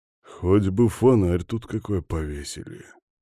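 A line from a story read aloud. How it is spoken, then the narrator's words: Grumbling. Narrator (Russian): проворчал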